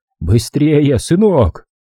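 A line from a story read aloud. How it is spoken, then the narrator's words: Relieved yell. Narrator (Russian): От облегчения Джимми завопил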